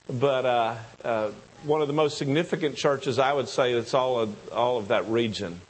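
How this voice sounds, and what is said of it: Southern American accent. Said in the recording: “my southern accent messes his name up all the time”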